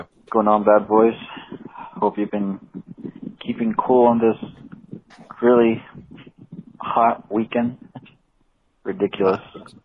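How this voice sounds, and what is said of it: Exaggerated put-on accent, sluggish Salvadoran. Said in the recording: “Is that his Reed accent? ... Two bonus points for this accent. This accent's brilliant. ... He's a El Salvadorian on Prozac.”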